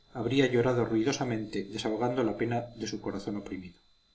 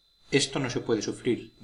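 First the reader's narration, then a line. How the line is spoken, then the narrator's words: Plain. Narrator (Spanish): dijo doña Francisca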